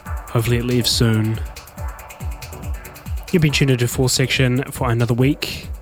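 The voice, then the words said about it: Croaky, breaking voice. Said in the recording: “A little bit croaky, my voice is breaking. I continue to be sick.”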